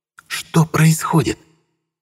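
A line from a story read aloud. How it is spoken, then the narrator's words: Hissed. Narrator (Russian): прошипела она в лицо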